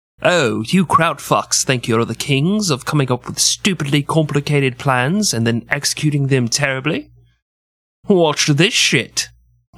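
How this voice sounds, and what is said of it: Put-on British accent. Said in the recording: “let me see if I can do my British accent.”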